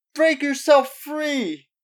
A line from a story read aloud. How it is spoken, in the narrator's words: Mickey yelled at them